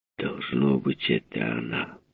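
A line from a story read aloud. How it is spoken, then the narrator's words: Muttering. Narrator (Russian): пробормотал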